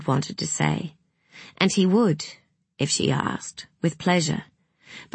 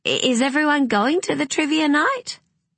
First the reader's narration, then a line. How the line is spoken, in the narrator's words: she said brightly